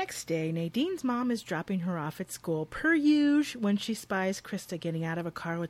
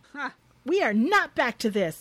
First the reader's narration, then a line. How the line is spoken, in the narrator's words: her mom shouts